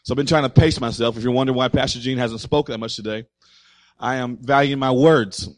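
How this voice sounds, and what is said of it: Slightly raspy voice. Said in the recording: “my voice is a little bit raspy here today. Woke up with a little bit of raspy voice”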